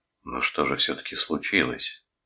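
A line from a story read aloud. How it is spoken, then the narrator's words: Quiet question. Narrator (Russian): тихо спросил Джереми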